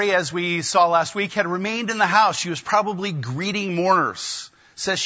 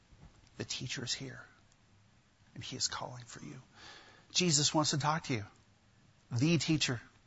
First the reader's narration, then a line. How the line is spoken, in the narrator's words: she just sort of whispers in her ear